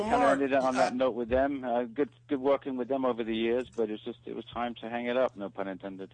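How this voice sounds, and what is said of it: English accent. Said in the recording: “the English accent is throwing me off. Is that an English accent that we're hearing here? ... It's an English accent.”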